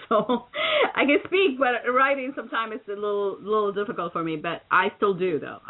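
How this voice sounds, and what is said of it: Slight foreign accent. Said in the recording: “I have a little bit of accent.”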